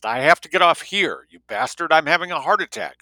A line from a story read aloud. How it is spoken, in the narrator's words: shouted